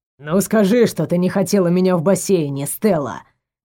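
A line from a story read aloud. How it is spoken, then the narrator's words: Loud booming bass. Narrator (Russian): На весь этаж басил Эманор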